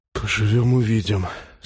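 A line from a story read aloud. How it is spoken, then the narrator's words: Hoarse exhaled words. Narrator (Russian): сипло выдохнул Глеб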